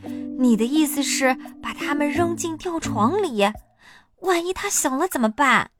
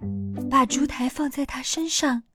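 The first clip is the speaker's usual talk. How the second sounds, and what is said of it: Whispered, quiet voice. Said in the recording (Chinese): “小声说”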